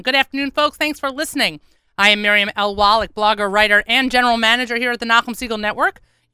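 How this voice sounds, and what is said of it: Tired, out of breath voice. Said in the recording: “Oh my God, I'm so tired... I think you can hear it in my voice... My God, I'm so out of breath”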